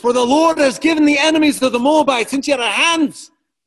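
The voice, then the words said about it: Poor put-on Scottish accent. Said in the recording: “kind of in a Scottish, poor Scottish accent.”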